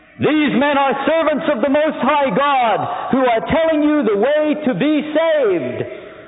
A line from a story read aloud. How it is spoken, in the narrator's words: This girl shouting